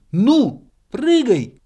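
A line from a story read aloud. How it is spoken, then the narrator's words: Shouted, squirrel. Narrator (Russian): крикнула белка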